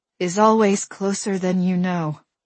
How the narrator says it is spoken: I said between gasps

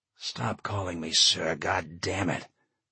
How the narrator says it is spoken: John hissed between the continuing heaves

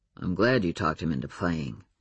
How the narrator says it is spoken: murmured the alpha werewolf

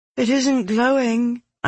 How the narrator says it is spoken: I said, my voice wavering slightly

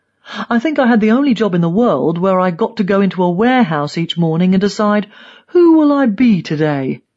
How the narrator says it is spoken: He laughs

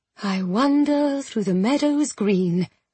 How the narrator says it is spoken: recited softly as she walked

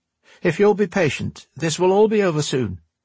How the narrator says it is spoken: said the girl in a friendly voice

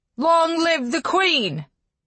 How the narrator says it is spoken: they all shouted again, voices ringing together

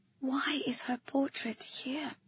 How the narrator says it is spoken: I whispered

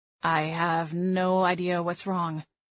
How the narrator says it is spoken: Miles said, his voice hollow

